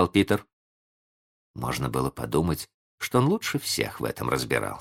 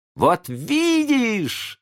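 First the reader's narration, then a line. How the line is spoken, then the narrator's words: Boys shouting in unison. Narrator (Russian): закричали мальчишки в один голос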